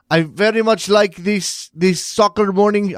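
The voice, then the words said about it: Weak attempt at German accent. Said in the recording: “I can't do a German accent. I can't even try.”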